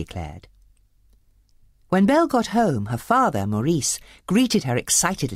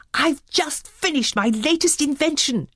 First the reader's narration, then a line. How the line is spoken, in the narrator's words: he exclaimed